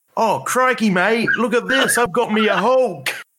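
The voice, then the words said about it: Steve Irwin impression drifting into Cockney. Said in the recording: “Now do that in a Steve Irwin accent ... why did that go Cockney? ... I sound too British, even if I'm not British.”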